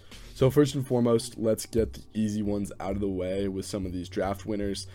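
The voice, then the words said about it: Sick, slightly rough voice. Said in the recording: “If I sound a little bit under the weather, it's because I am ... My voice is a little messed up, and I might be coughing a little bit”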